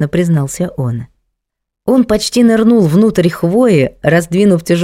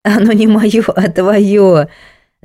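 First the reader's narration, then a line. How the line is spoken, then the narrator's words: Laughing. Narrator (Russian): засмеялась Женька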